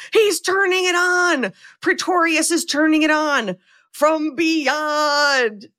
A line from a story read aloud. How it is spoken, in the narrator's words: Ben screams